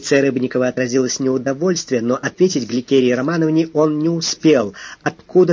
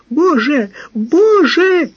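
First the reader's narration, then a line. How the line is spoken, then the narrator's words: Hysterical scream. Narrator (Russian): истерически закричала Лидина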